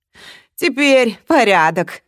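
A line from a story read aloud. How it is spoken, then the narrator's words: Muttered to himself. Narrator (Russian): сказал он сам себе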